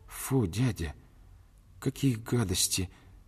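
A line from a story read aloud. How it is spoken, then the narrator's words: Bewildered reply. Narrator (Russian): ответила она, растерянно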